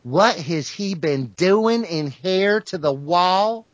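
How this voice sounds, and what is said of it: Imitated northern Mississippi accent. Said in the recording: “with her northern Mississippi accent”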